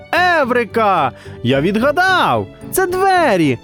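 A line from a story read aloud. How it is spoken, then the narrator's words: Boy shouting. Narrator (Ukrainian): закричав хлопчик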